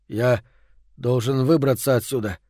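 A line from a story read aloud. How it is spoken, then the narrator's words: Muttering. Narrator (Russian): бормочет он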